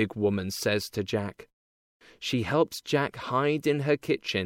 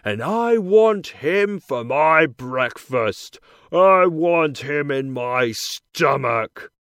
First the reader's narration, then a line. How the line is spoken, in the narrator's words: he shouts